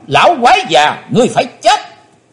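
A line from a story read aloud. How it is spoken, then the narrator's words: Shout. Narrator (Vietnamese): quát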